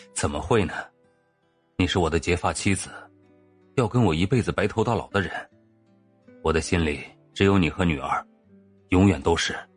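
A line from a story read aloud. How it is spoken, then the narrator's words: Laughing, then earnest. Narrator (Chinese): 陆源忍不住笑起来，然后认真无比的说着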